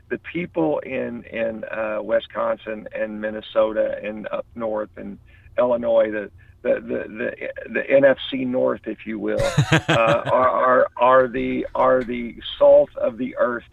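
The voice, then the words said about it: Southern hillbilly accent. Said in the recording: “I got a bit of hillbilly in my voice here”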